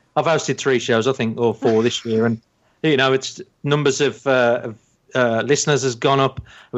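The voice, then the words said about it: Black Country accent. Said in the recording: “my Black Country accent”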